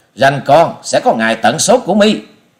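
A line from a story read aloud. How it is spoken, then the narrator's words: Furious loud shout. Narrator (Vietnamese): giận tái mặt quát to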